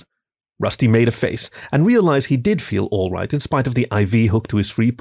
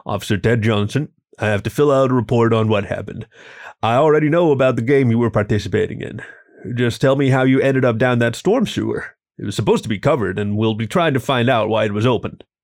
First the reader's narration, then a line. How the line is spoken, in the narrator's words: The bear looked at him and said gruffly